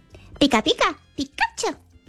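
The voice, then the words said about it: Cartoon creature voice imitation. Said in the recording (Spanish): “haciendo su imitación de Pikachu ... Es verdad que sale muy parecido.”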